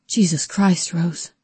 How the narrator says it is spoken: Calvin panted

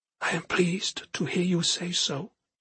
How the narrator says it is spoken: she whispered, not bothering to hide the strong emotions she was feeling

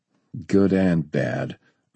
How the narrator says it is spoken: Ernie grumbled

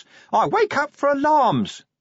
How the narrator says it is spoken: the imp shrieked

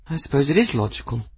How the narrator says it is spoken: Bridget sighed

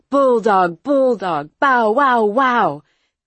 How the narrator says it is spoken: they both started to shout

